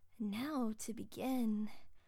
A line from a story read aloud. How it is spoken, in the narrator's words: Vaughn purred softly, smacking her lips in anticipation